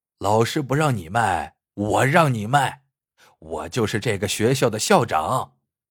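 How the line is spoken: Hearty laughter. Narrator (Chinese): 男人听罢，哈哈大笑

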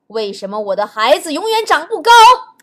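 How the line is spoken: Old king asking loudly. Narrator (Chinese): 头发花白的国王大声地问王后

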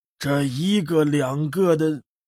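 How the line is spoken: Amused, bitter. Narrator (Chinese): 谢烟客再度好笑地，语带苦涩

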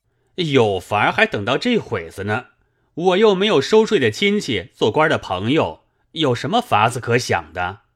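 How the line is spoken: Sneering. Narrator (Chinese): 狗儿冷笑道

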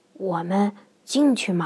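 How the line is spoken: Low voice. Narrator (Chinese): 瑞克低声说

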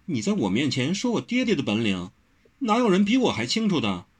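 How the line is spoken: Tight-lipped smiling. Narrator (Chinese): 温柔抿嘴笑道

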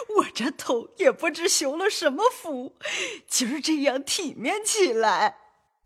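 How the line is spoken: Laughing, old woman. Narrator (Chinese): 刘姥姥笑道

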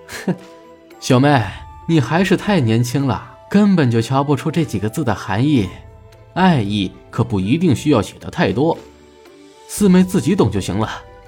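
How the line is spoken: Hearty laughing. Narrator (Chinese): 雷震川想了想，哈哈笑着说道

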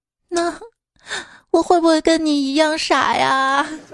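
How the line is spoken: Sobbing question. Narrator (Chinese): 他哭得更厉害了，边哭边问我

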